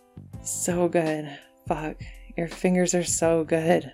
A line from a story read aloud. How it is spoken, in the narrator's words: Patrick pants